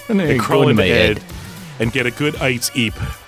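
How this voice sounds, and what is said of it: Bad put-on Cockney accent. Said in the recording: “It's like a bad Cockney accent.”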